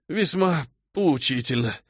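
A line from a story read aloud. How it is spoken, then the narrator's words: Pleased exhale. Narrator (Russian): довольно выдохнул он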